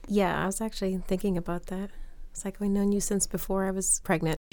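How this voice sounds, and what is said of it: Hoarse, croaky voice. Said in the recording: “I have a frog in my throat.”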